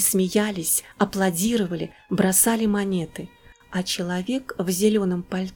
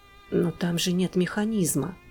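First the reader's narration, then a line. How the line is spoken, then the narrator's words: Muttered. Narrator (Russian): пробормотал мужчина в шляпе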